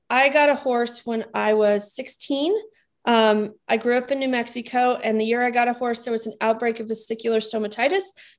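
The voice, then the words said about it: New England-sounding accent. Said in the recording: “your accent doesn't make me think of Arizona. It makes me think of New England.”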